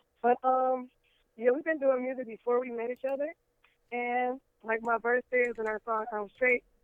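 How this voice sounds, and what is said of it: Hoarse voice. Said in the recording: “excuse my voice ... I have a nodule on my vocal cords, so my voice is a little hoarse.”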